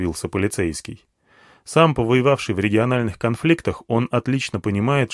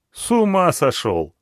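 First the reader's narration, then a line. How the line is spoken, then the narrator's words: Laughing. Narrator (Russian): засмеялся полицейский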